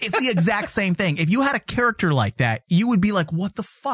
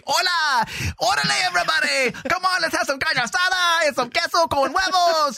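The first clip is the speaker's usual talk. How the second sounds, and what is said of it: Caricatured Mexican accent. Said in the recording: “It's a black caricature. It's no different than if you had a Mexican say”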